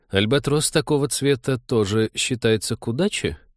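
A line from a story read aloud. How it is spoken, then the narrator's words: Stunned mutter. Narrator (Russian): пробормотал потрясенный Вениамин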